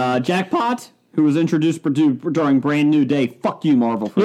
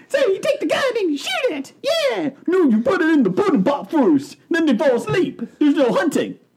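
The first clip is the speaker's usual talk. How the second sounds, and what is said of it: Poor imitation of another person's voice. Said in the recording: “terrible Bill Cosby impression”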